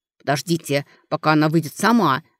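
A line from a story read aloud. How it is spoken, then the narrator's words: Brother growling back. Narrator (Russian): рычал в ответ брат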